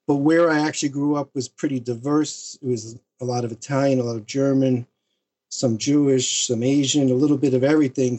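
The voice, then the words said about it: New York accent. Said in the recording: “we grew up as New Yorkers ... it sounds like from your accent anyway”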